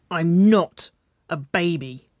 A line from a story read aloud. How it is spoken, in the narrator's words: she growled